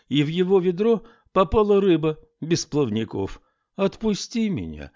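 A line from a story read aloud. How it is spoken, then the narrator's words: Pleading. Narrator (Russian): взмолилась рыба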